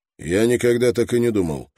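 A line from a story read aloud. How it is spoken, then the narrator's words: Sharp remark. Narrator (Russian): резко заметил Строн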